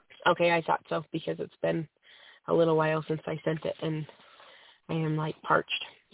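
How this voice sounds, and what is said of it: Hoarse, fading voice from a cold. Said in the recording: “I'm losing my voice. I have a cold,”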